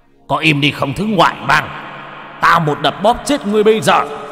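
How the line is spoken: Irritated. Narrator (Vietnamese): Mộc Thần bực tức

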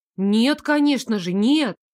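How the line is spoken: Exclaiming. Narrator (Russian): воскликнула я

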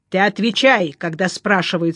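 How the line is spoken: Menacing. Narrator (Russian): сказал грозно Климов

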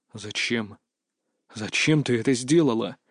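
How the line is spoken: Horrified, stiff-lipped whisper. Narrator (Russian): непослушными губами прошептал, с ужасом

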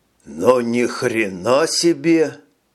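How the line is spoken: Mumbled. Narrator (Russian): промямлил Джек

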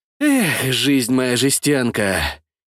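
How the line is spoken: Sighing. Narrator (Russian): Я вздохнул

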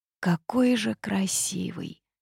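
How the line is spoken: Lovestruck whisper. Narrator (Russian): прошептала влюбленная жабка

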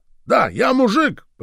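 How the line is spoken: Shouting then crying. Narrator (Russian): прокричал бедолага и заплакал

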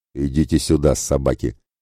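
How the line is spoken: Contemptuous giant's growl. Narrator (Russian): презрительно рыкнул молодой исполин

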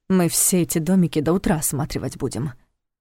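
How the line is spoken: Grumbling. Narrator (Russian): проворчал Войтых

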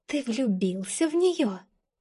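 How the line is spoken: Hissed. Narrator (Russian): прошипела она

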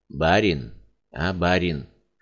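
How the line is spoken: Quiet calling. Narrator (Russian): Тихо звал Семенова бродяга

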